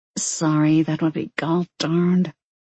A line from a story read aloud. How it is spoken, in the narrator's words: She clipped, then muttered